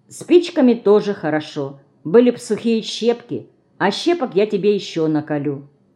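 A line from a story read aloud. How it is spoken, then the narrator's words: Calm. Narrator (Russian): Лёня спокойно сказал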